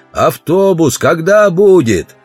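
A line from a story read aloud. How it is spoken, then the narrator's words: Shouting. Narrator (Russian): Удалов закричал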